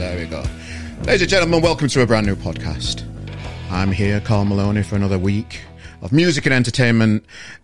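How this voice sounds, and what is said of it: Northern English accent. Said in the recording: “that northern accent... It's nice... there's just something nice and welcoming... It's a nice bounce”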